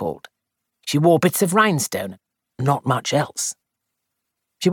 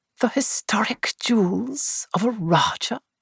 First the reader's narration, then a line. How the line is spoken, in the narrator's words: murmured Bunch ecstatically